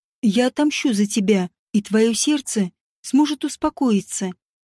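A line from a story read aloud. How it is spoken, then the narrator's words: Confident promise. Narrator (Russian): Ваш хат нежно погладил ее лицо и уверенно пообещал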